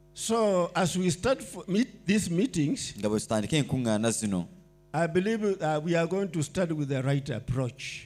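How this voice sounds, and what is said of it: Kenyan-accented English. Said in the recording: “The Kenyan accent may be a bit hard”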